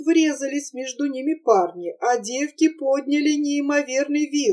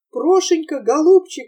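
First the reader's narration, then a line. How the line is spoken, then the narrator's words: Sobbing. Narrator (Russian): всхлипывала Таня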